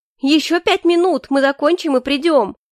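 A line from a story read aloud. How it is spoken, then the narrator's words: Shout. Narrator (Russian): крикнула Маргарита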